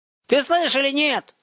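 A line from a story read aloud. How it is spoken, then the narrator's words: Yelling from above. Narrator (Russian): заорал сверху Ромка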